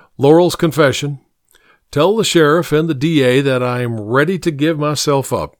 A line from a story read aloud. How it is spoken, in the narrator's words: he says